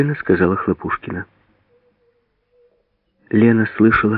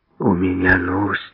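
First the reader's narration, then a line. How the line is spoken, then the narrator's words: Hoarse. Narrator (Russian): хрипло сказала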